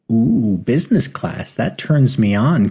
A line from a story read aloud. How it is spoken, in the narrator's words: cooed Lily